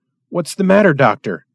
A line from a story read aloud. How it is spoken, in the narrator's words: he demanded anxiously